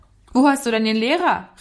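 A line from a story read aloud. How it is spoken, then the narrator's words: Called out. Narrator (German): rief zu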